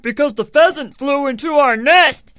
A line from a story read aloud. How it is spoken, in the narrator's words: cried the hornets